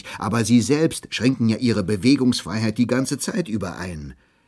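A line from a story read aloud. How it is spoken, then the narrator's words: Calling out. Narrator (German): rief ich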